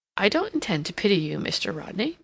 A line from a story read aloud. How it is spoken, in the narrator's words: Mary remarked, kindly, but firmly